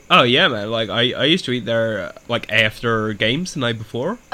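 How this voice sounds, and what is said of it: Inconsistent put-on American accent. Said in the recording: “my American accent's going in and out, and I could not do an American pronunciation biscuits”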